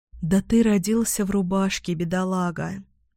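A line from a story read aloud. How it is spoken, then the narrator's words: Tender, gentle speech. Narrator (Russian): Ласково заговорила я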